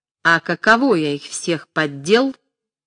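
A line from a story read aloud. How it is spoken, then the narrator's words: Triumphant, tearful yet smiling. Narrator (Russian): Глаза его были заплаканы, но он улыбался и торжествующим голосом сказал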